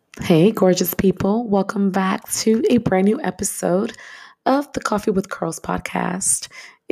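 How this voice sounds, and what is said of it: Voice sounds a little off, unwell. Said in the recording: “As you can hear, my voice is a little off. I'm actually recuperating. I've been sick for two weeks”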